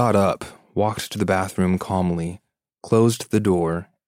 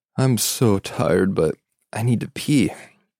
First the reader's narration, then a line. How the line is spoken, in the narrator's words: I yawned and said